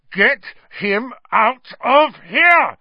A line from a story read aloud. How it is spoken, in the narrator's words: Ron bellowed